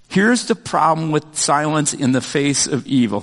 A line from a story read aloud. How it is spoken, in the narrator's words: says